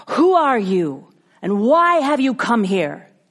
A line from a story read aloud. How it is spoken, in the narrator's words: he shouted down to him